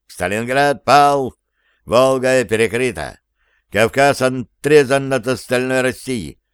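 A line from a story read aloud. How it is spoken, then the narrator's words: Clipped, clanging metallic voice. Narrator (Russian): чеканил он своим железным лязгающим голосом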